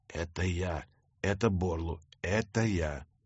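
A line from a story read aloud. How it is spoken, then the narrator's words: Whispered. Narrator (Russian): зашептал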